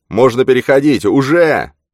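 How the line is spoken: Booming voice. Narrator (Russian): Ваксман прогремел следом

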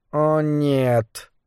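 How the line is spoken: Mumbling. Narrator (Russian): пробормотал Моррис

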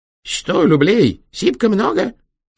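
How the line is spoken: Stern squeak. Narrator (Russian): строго пропищал он

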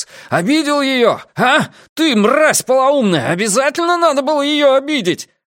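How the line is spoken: Screamed hysterically. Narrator (Russian): Лютер истошно кричал

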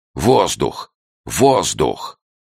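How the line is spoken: Shouting. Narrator (Russian): я крикнул Гюнтеру

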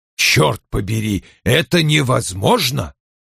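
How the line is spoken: Irritated. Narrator (Russian): раздраженно произнес он

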